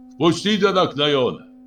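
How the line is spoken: Shouted. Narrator (Russian): Нугер прокричал

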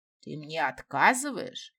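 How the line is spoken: Roared. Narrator (Russian): взревел правитель

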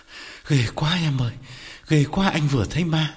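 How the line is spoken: Panting frightened reply. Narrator (Vietnamese): Quán thở hổn hển đáp

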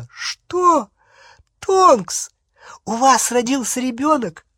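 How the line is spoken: Delighted squeal. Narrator (Russian): Гермиона восторженно завизжала

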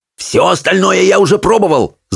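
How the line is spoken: Growling. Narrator (Russian): зарычал на нее Питер

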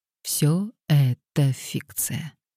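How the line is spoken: Soft. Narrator (Russian): мягко сказал Мэтью

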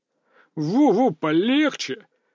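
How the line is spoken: Laughing. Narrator (Russian): рассмеялся Сергей

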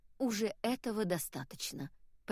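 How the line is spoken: Whispered. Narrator (Russian): прошептала она

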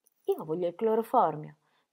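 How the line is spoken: Plain. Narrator (Italian): disse Ingeborg

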